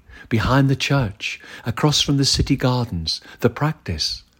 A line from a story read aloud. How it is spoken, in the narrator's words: whispered quietly